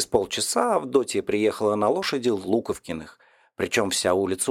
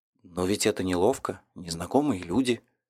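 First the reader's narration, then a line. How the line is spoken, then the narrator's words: Mumbling. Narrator (Russian): бормотал Кочетов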